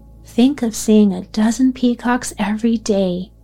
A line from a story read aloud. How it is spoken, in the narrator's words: Dickie exclaimed